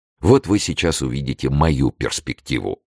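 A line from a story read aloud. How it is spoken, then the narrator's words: Plain. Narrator (Russian): сказал Планше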